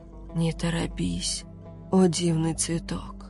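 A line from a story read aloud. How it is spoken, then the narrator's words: Hoarse whisper in ear. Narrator (Russian): хрипло шепнул Сих ей в ухо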